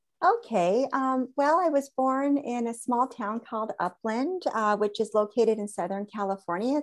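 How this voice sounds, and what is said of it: American accent. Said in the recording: “you have an American accent like me”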